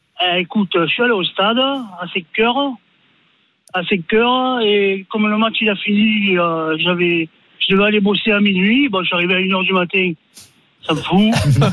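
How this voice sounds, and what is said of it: Southern French Marseille accent. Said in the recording (French): “Avec l'accent.”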